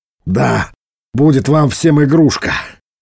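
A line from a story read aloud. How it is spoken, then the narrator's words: Grumbled. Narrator (Russian): буркнул Веллок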